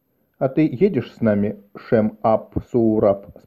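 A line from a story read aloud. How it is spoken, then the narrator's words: Plain. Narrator (Russian): спросил Деро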